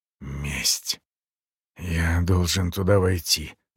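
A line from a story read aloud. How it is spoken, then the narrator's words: Muttered. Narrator (Russian): пробормотал полковник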